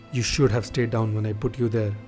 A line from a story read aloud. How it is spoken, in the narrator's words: said angrily